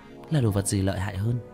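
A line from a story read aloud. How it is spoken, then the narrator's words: Quiet, low voice. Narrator (Vietnamese): Cố Văn nhỏ giọng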